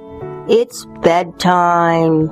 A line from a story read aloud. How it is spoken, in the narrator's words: sighed the moon drowsily